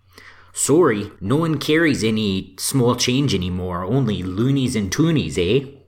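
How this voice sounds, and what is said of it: Put-on Canadian accent. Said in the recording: “From that accent, I'm going to say Canada. ... Shouldn't have done the accent.”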